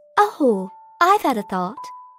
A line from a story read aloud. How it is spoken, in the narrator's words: I said brightly, as though I had just been struck dumb by the idea